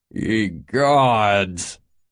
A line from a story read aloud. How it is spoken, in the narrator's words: Mavis groaned